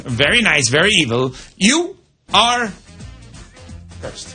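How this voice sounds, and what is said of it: Impression of Danhausen. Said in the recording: “Danhausen cursed the Carolina Hurricanes ... Do your impression of it.”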